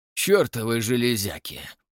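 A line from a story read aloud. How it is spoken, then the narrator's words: Grumbling. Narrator (Russian): проворчал Уве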